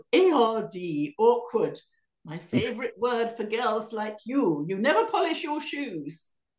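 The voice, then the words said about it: Imitated stern headmistress voice. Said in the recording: “I'm glad you did that voice,”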